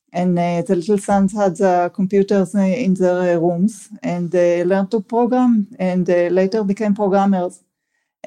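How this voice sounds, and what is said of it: Strong non-native English accent. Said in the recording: “my accent is so terrible”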